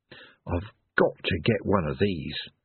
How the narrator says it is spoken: he murmured

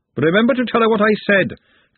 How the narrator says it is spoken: Glenda shouted after her

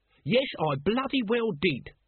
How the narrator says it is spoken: said Nobby hotly

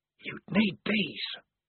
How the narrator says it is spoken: whispered the voice

